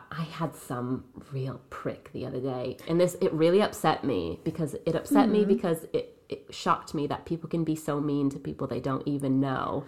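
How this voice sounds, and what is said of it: Non-English foreign accent. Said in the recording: “people immediately pick up on my accent ... They can see I'm not from England”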